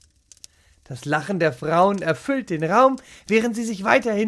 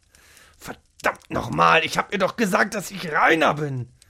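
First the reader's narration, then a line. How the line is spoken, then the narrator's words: Angry growl. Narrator (German): knurrte er ärgerlich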